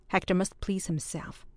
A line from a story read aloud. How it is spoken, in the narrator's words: replied her husband coldly